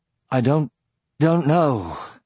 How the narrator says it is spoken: he said in a ravaged voice

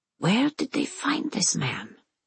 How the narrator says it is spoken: She whispers to Prince Frederick

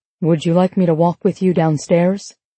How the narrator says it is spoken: As if both of our lives aren't falling apart around us, Graham calmly says to me

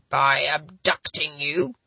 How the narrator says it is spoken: Dominic's low background growl rose in intensity

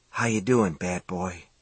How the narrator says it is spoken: He whispered

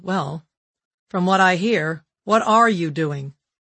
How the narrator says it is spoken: He replied coldly

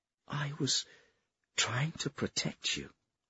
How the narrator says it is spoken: Senlin murmured

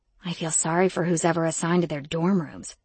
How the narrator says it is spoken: I whispered back, applauding my even tone

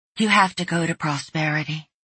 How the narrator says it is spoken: she said, her voice a bit hollow and distant

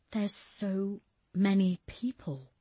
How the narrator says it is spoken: Julia whispered, the words escaping her mouth before she even had a chance to think about them

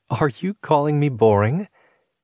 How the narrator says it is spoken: She giggled and said

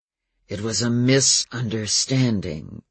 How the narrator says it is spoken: growled Adam, speaking slower

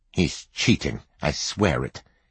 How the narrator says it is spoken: he muttered

